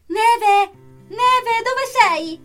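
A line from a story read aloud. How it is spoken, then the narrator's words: Distant yelling. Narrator (Italian): si è sentito urlare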